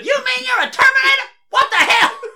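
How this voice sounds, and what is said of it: Imitates another person's voice. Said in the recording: “My Kevin Hart impression was basically a Chris Tucker impression.”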